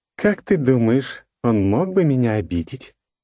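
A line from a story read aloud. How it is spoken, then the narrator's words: Unexpectedly sly questioning voice. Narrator (Russian): неожиданно хитрым голосом спросила она у него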